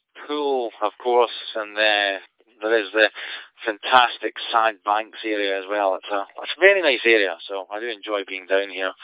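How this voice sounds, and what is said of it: Scottish accent. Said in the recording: “you can probably tell from my accent, I'm originally from Scotland”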